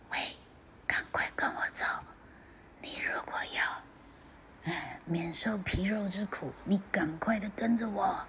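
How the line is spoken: Quiet. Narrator (Chinese): Tips 小声的对小狗说

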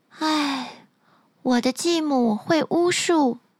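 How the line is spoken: Sighing. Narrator (Chinese): 姑娘又再次叹了口气，她说

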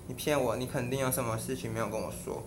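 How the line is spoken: Muttering to himself. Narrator (Chinese): 另外一个小陈说，喃喃自语道

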